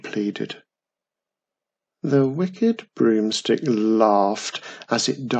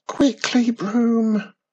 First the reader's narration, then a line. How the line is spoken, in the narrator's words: Wizardy Witch screamed